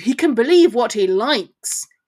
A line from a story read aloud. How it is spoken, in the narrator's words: growled